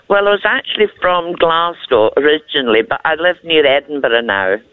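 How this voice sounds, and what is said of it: Scottish accent. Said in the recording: “I love your accent... Whereabouts in Scotland are you? I love your accent so much.”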